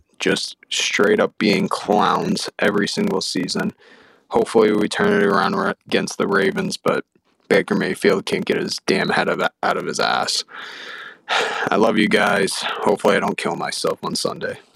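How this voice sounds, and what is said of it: Robotic-sounding voice. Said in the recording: “why he sounds like a robot”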